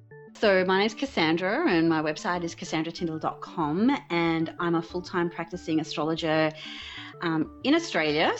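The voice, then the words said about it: Unusual-sounding accent. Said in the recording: “if my accent sounds a bit weird”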